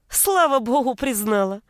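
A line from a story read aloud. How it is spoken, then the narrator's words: Carefree laughing. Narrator (Russian): Беззаботно расхохоталась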